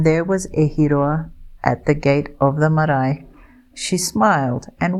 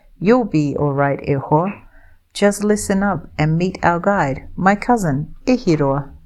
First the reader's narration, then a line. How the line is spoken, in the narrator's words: Now Uncle Slim was laughing, saying